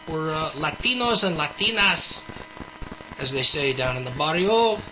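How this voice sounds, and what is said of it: Put-on Latino accent. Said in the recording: “How was that for a good accent? ... That was pretty good.”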